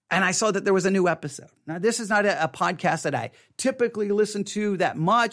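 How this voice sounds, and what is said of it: Texas accent. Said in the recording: “in my Texas accent”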